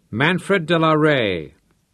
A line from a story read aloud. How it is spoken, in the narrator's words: asked in a powerful voice